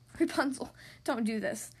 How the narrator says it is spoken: Flynn begged

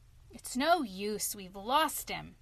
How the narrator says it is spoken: sighed

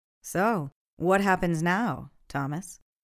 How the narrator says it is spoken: Sarah asked

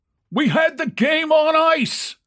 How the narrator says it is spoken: one cried

